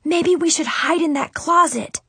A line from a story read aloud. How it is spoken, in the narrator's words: I shouted quietly